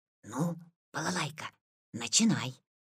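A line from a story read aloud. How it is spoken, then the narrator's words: Quiet. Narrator (Russian): Витя сказал тихо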